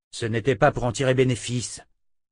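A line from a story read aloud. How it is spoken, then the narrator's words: Grumbling. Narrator (French): grogna Richard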